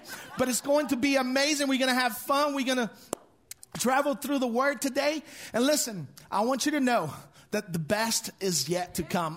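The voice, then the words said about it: Speaks with an accent. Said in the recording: “Please excuse my accent”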